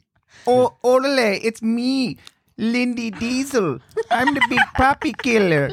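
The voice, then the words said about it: Put-on Spanish accent. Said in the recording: “it was supposed to be with Latin American flavor ... Let's all talk like we're from Spain.”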